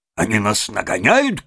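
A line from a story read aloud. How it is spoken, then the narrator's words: Shouted. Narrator (Russian): крикнул машинист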